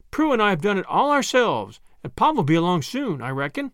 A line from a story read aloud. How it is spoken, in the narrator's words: cried Tilly